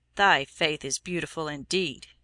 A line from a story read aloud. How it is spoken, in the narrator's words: he said scornfully